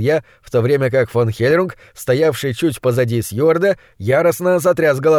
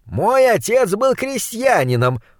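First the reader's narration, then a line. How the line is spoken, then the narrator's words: Loud proclamation. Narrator (Russian): громко провозгласил фон Хельрунг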